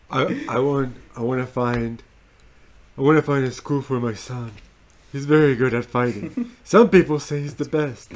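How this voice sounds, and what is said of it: Poor Donald Trump impression. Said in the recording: “That was a terrible Trump impression.”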